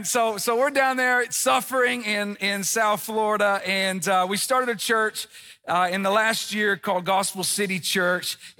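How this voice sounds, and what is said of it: Tennessee Southern American accent. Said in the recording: “I don't have an Australian accent, but in South Florida, my accent stands out... what part of Europe are you from? The Tennessee part”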